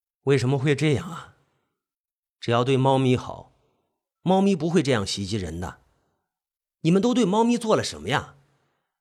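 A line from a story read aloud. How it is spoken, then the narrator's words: Sighing, dejected. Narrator (Chinese): 警察叹着气，黯然道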